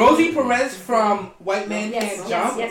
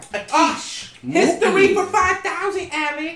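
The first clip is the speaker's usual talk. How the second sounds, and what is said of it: Rosie Perez Bronx accent impression. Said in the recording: “What's your favorite accent? ... Bronx Bodega. ... Like Rosie Perez? ... Rosie fucking Perez. ... Give me some. ... I can't do it.”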